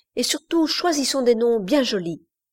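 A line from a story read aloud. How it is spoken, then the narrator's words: Cried out. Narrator (French): s'écria Iverson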